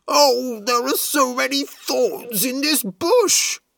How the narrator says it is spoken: cried Doggo

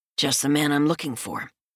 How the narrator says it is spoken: I grunt

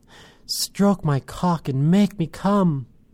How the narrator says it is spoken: As the orgasm within me built towards climax, I begged

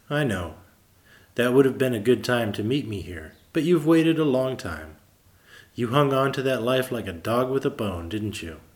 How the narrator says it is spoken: His soul laughed

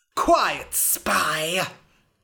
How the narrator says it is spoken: hissed the king

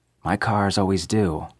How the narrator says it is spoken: I replied stiffly

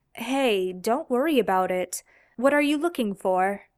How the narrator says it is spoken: Misha asked

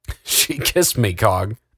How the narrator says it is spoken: laughed the mechanic

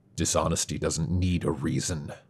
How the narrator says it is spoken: Travis growled

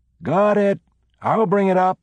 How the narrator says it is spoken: someone called out

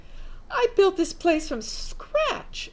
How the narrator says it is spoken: exclaimed

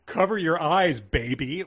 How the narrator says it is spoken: Anthony yelled

